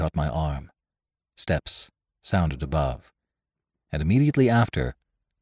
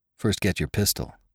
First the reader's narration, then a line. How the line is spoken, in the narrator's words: reminded dryly